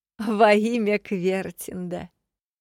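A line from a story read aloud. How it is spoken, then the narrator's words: Laughing. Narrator (Russian): Рассмеялась Линда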